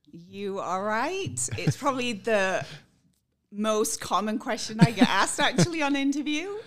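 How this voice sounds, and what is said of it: British accent. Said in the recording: “I detect a bit of an accent there ... I am originally from the UK. I was born in Scotland and grew up in England.”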